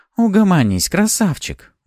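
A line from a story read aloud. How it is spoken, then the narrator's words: Weary. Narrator (Russian): устало произнесла Пафи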